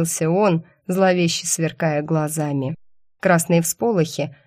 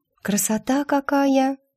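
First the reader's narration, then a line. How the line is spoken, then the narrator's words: Breathy exhale. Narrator (Russian): выдохнула я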